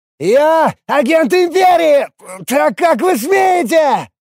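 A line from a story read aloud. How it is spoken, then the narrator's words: Straining desperate yell. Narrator (Russian): Надрываясь, орал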